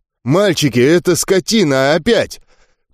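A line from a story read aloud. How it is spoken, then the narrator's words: Growled. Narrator (Russian): Предводитель рыкнул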